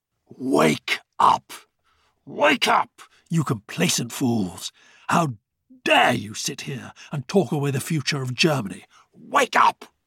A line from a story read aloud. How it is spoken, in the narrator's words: The volume of his voice startled everyone into shocked amazement, Rudy included